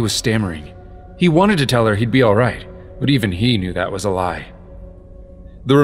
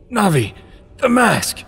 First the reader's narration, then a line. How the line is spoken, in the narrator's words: Link rasped